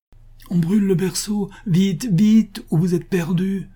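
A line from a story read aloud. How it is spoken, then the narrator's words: Exclaiming. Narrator (French): s'écria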